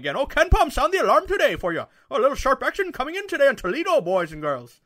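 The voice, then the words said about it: Put-on Irish accent. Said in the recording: “I think I have a pretty good Irish accent,”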